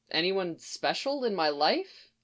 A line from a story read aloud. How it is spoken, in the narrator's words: he repeated quietly